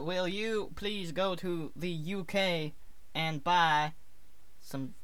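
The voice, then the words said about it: Put-on Southern American accent. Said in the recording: “Southern, American accent ... Southern America”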